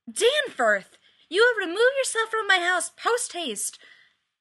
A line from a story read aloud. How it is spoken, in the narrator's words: Sharpay's fiercest baboon scream echo through the west wing of the house, shrieking